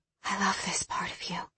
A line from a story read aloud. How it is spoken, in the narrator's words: she whispered